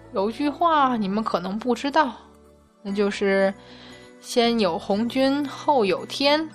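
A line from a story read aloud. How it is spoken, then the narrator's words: Sighing. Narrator (Chinese): 太白金星叹息道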